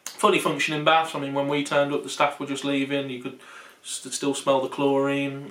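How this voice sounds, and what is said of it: West Midlands English accent. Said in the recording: “anyone from the UK can probably tell by our accent that we're not far from Smethwick”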